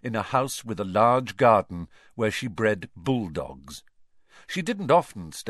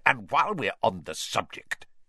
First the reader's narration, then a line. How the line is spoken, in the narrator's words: Uncle Vernon snarled